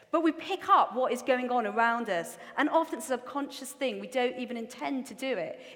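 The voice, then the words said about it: Strong Geordie English accent. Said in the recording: “I also have a really strong Geordie accent. So sometimes my accent as well is all over the place.”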